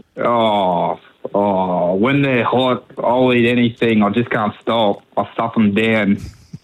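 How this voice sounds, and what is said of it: Fairly good impersonation. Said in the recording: “I was a bit better than you at it, I think. But yours was a fairly good, you know, impersonation of it.”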